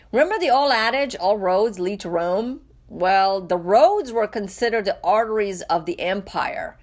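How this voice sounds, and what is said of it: Raspy voice. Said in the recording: “I'm a little bit under the weather today and my voice is a little raspy,”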